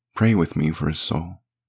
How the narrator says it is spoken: she said sadly

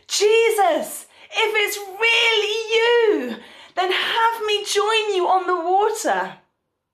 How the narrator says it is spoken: Peter shouted through the storm

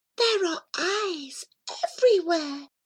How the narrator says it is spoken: Muscoorie whispered

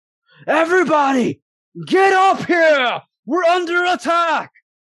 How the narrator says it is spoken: one of them screams out

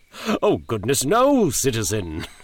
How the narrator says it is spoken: he chuckled

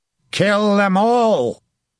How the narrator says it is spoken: Henry shouted

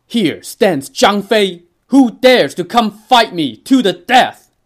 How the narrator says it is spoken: let out a mighty roar

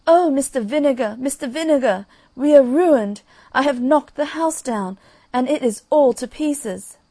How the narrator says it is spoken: she exclaimed

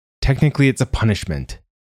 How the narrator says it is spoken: Nima said sharply

